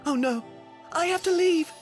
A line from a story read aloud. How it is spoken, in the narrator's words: gasped Cinderella